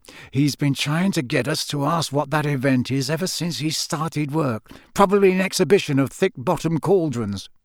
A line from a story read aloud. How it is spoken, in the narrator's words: Ron rolled his eyes and muttered